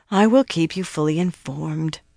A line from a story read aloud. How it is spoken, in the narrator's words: Alana sighed, pouting like a girl